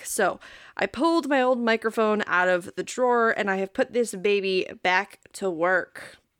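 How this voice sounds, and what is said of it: Congested voice from a cold. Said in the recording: “my voice sounds a bit weirder than usual, and that is because I am getting over a very bad cold”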